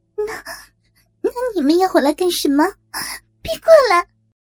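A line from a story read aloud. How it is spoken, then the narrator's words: Shrill laughter. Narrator (Chinese): 阿锦尖笑着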